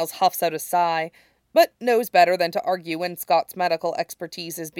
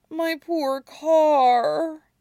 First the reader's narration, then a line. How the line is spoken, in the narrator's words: he moans